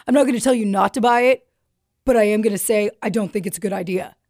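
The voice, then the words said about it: Imitates another person's voice. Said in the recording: “That's my impression of Jim.”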